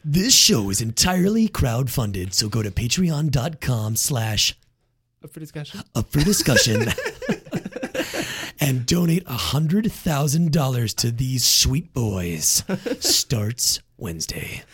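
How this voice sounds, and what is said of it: Movie trailer announcer voice. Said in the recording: “In your trailer voice.”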